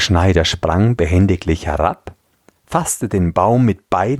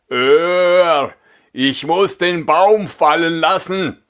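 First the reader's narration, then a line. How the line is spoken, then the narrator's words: Exhausted giant calling. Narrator (German): Der Riese, nachdem er ein Stück Wegs die schwere Last fortgeschleppt hatte, konnte nicht weiter und rief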